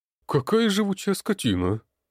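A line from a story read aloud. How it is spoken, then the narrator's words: Muttered. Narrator (Russian): пробормотал ушастый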